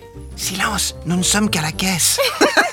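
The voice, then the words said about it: Whispering. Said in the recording (French): “Le père chuchote.”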